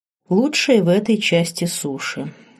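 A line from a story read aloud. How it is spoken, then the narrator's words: Calm elderly voice. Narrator (Russian): спокойно ответил ему пожилой целитель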